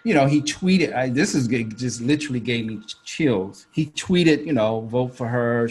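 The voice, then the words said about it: Atlanta Southern American accent. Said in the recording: “my Atlanta accent”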